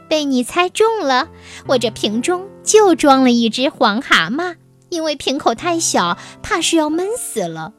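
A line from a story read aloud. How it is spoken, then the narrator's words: Laughing. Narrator (Chinese): 笑着说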